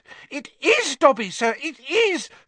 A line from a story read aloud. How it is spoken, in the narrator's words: squealed the voice from somewhere around his navel